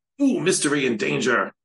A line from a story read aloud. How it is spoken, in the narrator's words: exclaimed with his eyes and arms wide